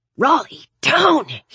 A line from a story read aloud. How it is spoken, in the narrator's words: He hissed